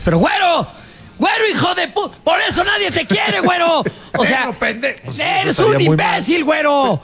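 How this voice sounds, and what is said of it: Shouting insults angrily. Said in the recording (Spanish): “para que no tenga yo que gritar cosas horribles ... estás gritando”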